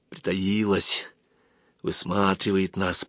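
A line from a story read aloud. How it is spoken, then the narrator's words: Whisper. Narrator (Russian): прошептал Вася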